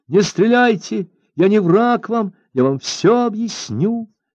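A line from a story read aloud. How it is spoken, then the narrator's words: Girl screaming. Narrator (Russian): закричала девушка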